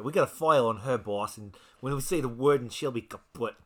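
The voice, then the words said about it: Put-on Italian mobster accent. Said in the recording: “You got to say it right. ... You're Italian. You should do that better than me. ... the accent”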